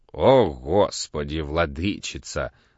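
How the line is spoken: Sigh. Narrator (Russian): вздохнул Пантелей

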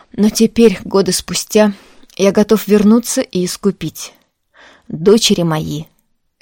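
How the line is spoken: Very loud. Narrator (Russian): Это он произнес очень громко

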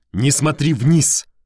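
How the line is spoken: Barking. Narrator (Russian): рявкнул я

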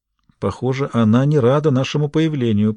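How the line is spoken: Smiling whisper. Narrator (Russian): прошептала Рейн-Мари, улыбаясь

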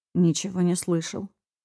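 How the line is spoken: Muttering. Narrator (Russian): пробормотал он

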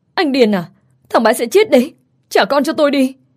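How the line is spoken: Crying scream. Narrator (Vietnamese): Tôi lúc này vừa khóc vừa hét lên

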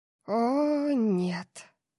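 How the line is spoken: Breathless exhale. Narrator (Russian): выдохнула Тори

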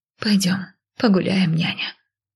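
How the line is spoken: Quiet resigned call. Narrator (Russian): негромко позвала я, смирившись с ее самоуправством

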